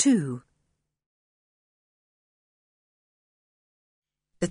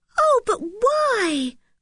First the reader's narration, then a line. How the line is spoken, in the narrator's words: cried Anne in dismay